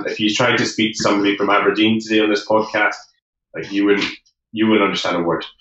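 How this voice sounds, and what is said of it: Posh Scottish accent. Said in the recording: “we've got what's called like a posh Scottish accent, and we're meant to be easier to understand”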